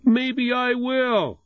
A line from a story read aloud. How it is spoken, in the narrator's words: Jesse yelling